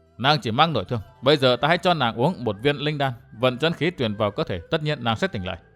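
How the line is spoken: Muttered. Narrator (Vietnamese): Gã lẩm bẩm

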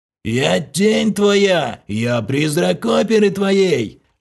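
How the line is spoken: Sepulchral howl. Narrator (Russian): За могильным голосом провыл Влас

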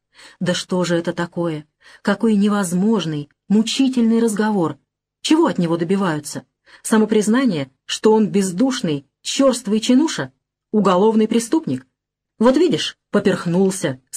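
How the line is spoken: Plain. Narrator (Russian): сказала Жмурова

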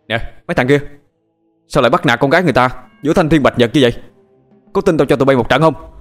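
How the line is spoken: Shouting. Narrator (Vietnamese): tiếng quát của Tuấn

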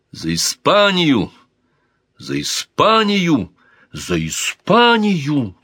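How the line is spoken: Exclaiming with raised arms. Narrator (Russian): Воздев к небу руки, воскликнул Дон Гонсало

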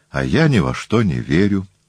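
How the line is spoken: Sad. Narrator (Russian): грустно произнес Телекл

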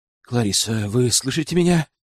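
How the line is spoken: Gentle. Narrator (Russian): ласково проговорил

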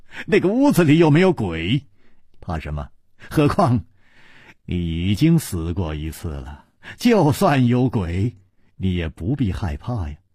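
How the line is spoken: Laughing. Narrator (Chinese): 楚留香笑着说

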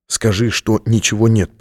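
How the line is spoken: Whispered. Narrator (Russian): прошептал он

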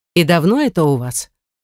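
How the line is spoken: Sharp, calming slightly. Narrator (Russian): Резко, но уже немного спокойнее, адресует свой вопрос мне

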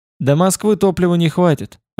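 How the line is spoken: Plain. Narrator (Russian): ответил Шенгальц

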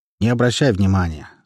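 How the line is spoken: Calm statement. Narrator (Russian): спокойно произнес мастер

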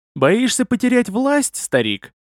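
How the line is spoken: Insolent laugh. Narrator (Russian): нагло засмеялся я

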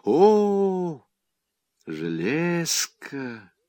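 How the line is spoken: Collective sigh. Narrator (Russian): вздохнули все разом

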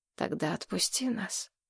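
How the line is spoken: Quiet. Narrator (Russian): тихо сказал Гурский

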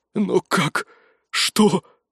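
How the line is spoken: Breathless exhale. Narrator (Russian): выдохнул король

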